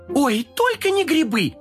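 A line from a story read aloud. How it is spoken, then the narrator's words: Young voices shouting together. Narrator (Russian): хором закричали младшие котята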